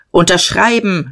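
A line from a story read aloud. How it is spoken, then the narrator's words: Major calling out. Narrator (German): rief der Major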